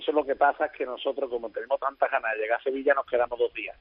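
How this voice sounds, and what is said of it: Southern Spanish accent. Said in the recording (Spanish): “Se le ha pegado el acento y todo, su majestad... acento también tiene sur”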